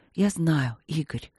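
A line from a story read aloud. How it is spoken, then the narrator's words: Smiling whisper. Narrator (Russian): прошептала она, улыбаясь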